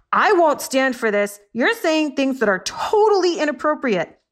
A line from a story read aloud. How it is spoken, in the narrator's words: The orangutan yelled